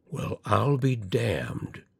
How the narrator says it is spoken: he enunciated slowly and solemnly

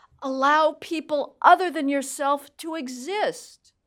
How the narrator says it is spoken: female black student male Hispanic student allegedly pleading

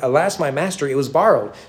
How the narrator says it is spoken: he cried out

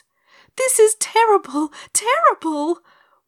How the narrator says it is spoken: wailed Dorothy

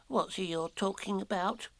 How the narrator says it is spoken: Piglet whispered to Pooh

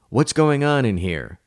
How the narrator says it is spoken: his mother cried, bursting angrily into the room

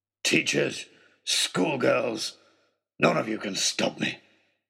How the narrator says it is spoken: he snarled

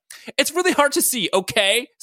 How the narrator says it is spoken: Scott screamed defensively

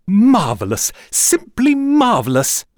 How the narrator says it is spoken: Le Gentil cried

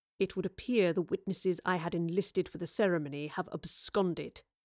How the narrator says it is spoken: muttered, the humiliation of a plan gone awry weighing heavily on his temper

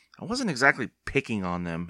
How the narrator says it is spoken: Evan muttered

